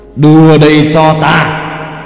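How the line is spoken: Impatient hiss. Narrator (Vietnamese): có lẽ thiên phụ đã đợi đủ lâu, người rít lên

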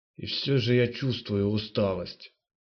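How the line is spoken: Groaning. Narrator (Russian): простонал Генар

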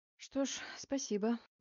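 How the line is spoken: Sighing. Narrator (Russian): вздохнула я

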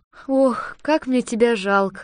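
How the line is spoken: Girl sighing. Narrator (Russian): вздохнула девочка

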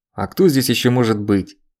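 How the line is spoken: Irritated. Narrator (Russian): раздражённо произнёс Дубанов

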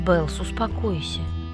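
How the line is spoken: Quiet. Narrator (Russian): тихо молвил Каллен

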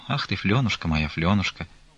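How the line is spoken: Quiet, after long silence. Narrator (Russian): тихо проговорила она после долгого молчания

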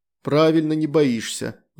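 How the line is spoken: Sigh. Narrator (Russian): вздохнул

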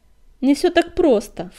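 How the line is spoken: Herald snorting. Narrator (Russian): фыркнул глашатай

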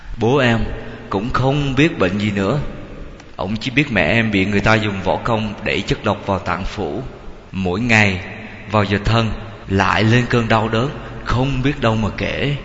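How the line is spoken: Sighing. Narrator (Vietnamese): Lê Văn thở dài

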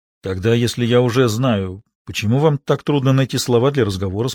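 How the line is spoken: Plain. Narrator (Russian): спросил он

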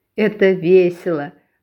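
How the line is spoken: Girl laughing. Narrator (Russian): рассмеялась девочка

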